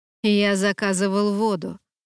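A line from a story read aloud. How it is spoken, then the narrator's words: Grumble. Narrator (Russian): проворчал Долтон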